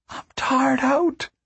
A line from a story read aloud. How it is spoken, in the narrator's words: the girl whispered